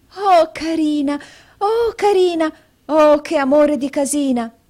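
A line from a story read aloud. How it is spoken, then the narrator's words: Exclaiming. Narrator (Italian): esclamò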